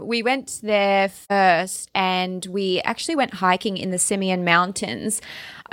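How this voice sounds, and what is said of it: Australian accent. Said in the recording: “that's my Australian accent”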